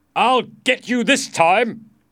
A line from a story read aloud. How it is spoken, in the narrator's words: Sir Sagramore shouted angrily